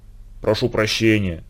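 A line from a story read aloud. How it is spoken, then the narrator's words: Barely audible. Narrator (Russian): едва слышно сказал Ледька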